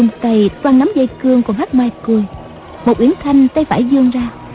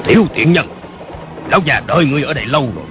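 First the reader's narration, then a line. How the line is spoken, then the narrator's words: Old man's shout. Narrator (Vietnamese): một lão già cao lớn quát lên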